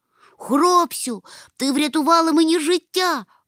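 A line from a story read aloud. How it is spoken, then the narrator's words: Exclaimed. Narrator (Ukrainian): вигукнув мумітроль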